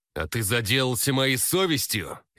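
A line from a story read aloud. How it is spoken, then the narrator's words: Sudden sharp bark. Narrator (Russian): Неожиданно резко рявкнул Владимир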